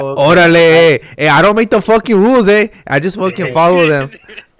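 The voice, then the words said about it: Put-on accent. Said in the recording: “You gotta keep up your accent, eh?”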